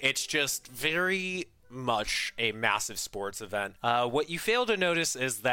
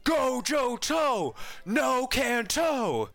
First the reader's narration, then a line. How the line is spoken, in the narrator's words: shouts back and is like